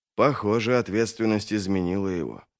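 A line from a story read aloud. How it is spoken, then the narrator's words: Muttered. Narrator (Russian): пробормотал Вест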